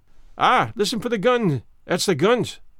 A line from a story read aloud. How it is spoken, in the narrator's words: cried Archie